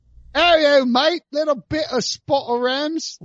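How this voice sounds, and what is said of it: Put-on London accent. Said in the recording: “I'm not going to do a London accent.”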